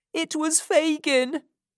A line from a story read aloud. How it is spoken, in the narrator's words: cried Oliver